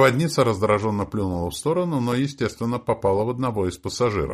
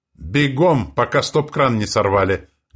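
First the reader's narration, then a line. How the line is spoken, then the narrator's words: Loud barking shout. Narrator (Russian): гаркнул мажор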